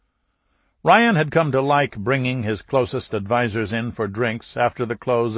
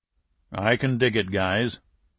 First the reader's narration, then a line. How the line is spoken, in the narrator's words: Murray grunted